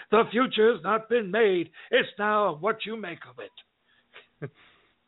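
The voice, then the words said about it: Impression of Doc Brown's voice. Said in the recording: “Doc Brown going ... That was a good impression.”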